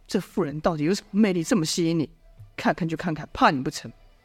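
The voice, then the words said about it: Quiet, muttered scolding. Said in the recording (Chinese): “小声的骂道”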